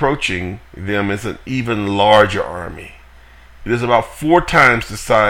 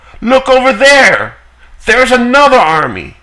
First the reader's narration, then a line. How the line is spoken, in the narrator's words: someone shouts out again